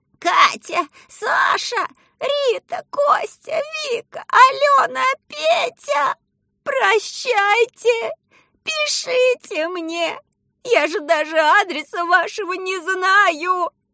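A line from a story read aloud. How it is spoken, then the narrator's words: Shouting. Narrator (Russian): кричала она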